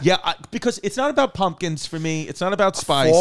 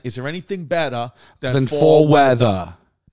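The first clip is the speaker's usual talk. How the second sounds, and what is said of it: Put-on New York accent. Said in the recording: “I said it with a New York accent.”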